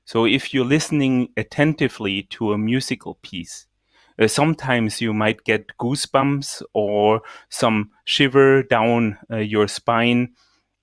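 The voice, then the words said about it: German-accented English. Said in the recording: “my pronunciation with the German accent”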